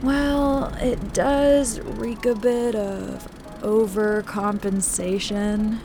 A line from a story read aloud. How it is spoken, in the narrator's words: the alien composer yawned